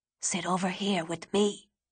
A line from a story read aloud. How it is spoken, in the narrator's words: yelled